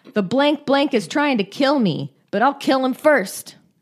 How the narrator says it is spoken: Broom exclaimed

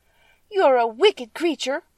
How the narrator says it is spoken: cried Dorothy

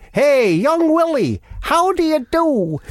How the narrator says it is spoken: he shouted

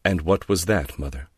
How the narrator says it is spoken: Laura said coldly

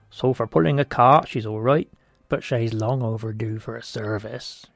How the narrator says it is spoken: he grumbled

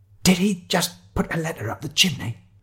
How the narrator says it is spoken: I hissed at Shiloh

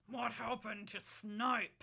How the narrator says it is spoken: I growled

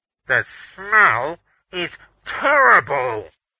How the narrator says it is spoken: Beaners called, his voice muffled because he was covering his mouth with a white gloved hand

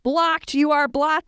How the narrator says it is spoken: screamed J

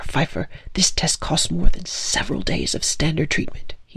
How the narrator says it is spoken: he hissed in my ear

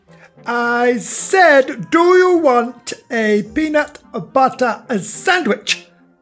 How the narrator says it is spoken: yelled

